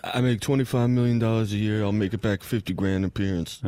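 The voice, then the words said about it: Impression of Draymond Green. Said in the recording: “your Draymond impersonation? ... That's my Draymond.”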